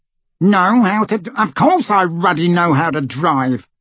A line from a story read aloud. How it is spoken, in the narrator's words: spluttered Uncle Vernon